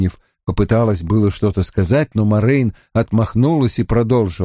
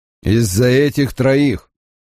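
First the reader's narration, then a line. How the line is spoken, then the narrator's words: Angry. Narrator (Russian): сердито произнес Лан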